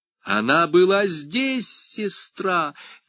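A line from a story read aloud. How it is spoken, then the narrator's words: Shouted. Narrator (Russian): крикнула Мария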